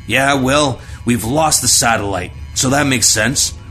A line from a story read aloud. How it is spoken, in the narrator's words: Zimmerman barked